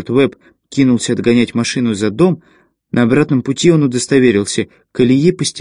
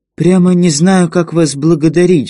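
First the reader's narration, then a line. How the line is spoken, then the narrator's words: Agitated, excited. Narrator (Russian): взволнованно повторяла Лотта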